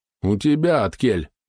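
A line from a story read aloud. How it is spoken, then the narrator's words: Mocking question. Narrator (Russian): насмешливо спросил Матвей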